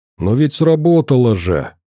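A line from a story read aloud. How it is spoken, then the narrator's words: Displeased grumble. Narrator (Russian): недовольно пробурчал Зелон, обиженно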